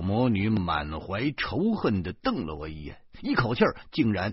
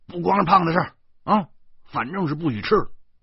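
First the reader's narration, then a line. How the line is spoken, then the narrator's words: Angry. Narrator (Chinese): 我我愤怒的说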